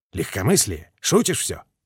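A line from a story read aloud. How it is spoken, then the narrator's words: Mutter. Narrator (Russian): пробормотал Гуляев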